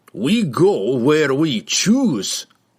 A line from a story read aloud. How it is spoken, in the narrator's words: snarled Brunner